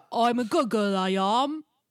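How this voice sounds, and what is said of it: Put-on Cockney accent. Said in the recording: “is that her accent? ... she has a Cockney accent. ... She does now forever.”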